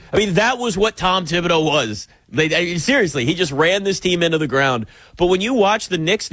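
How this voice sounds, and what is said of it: Usual voice. Nothing is said of it.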